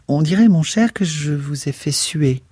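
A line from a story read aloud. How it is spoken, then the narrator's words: Worried, compassionate tone. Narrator (French): s'inquiéta-t-elle d'un ton compatissant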